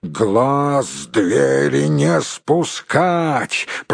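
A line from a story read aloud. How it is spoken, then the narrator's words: Growled order. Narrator (Russian): прорычал начальник караула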